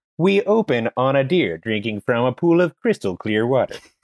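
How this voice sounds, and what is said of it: Imitates another person's voice. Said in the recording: “my Will Forte impression. I do a Will Forte impression ... so it's my Will Forte ... Wow, that's so good.”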